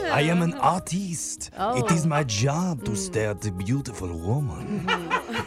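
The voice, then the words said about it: Sensual fake French-style accent. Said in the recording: “that sensual accent ... He sounds like the cook from The Little Mermaid. ... Or the candle from Beauty and the Beast”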